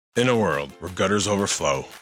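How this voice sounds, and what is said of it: Dramatic movie trailer narrator voice. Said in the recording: “doing the movie trailer voice again?”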